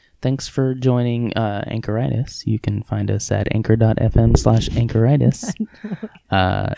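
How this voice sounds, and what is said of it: Smooth, low radio-host voice. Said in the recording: “my radio voice ... who is that? ... Who's that sexy voice? ... He sounds like a male version of Delilah ... It is a different voice”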